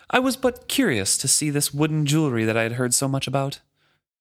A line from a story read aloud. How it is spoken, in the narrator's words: saying haughtily